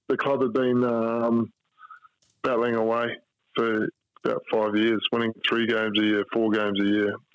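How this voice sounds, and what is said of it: Rough, slightly hoarse voice. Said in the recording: “my voice is a little bit rough here”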